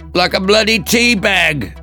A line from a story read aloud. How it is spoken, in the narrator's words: Hannah shouted back